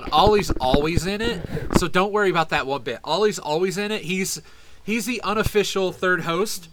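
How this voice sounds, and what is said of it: Southern American accent. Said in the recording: “my accent's going to be running fucking rampant ... you sound like you're Southern”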